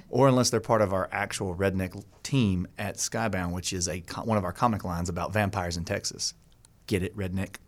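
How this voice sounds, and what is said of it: Charming Southern American accent. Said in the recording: “the charming Southern accent”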